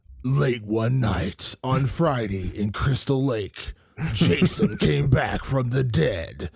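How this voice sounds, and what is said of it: Dramatic movie trailer narrator voice. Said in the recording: “the trailer voice guy was so prominent in those days”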